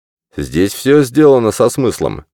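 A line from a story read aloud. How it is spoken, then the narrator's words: Objecting with a snort. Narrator (Russian): возразил Сэндерсон и хмыкнул, словно подтверждая свои слова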